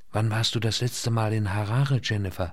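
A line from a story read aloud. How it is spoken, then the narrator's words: Quiet question. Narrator (German): fragte leise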